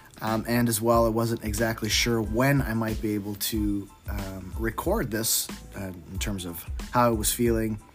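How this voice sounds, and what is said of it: Rough voice from a cold. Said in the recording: “I am sounding a little rough today. I've been battling a nasty cold”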